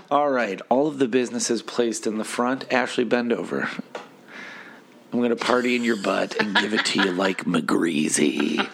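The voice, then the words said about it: Hoarse, froggy voice. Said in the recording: “I'm a little froggy. ... I'm a little hoarse.”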